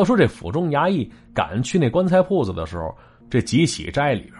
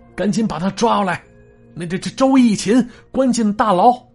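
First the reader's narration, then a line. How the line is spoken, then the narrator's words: Shouting orders. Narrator (Chinese): 刘多人朝手下大喊了一声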